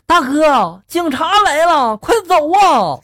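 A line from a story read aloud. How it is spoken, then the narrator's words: Urgent loud yell. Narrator (Chinese): 我那个朋友呢，风风火火的…大声的就吼了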